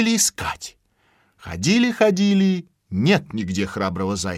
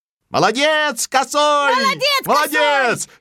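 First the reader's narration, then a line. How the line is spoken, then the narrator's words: Hares shouting in unison. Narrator (Russian): закричали все зайцы в один голос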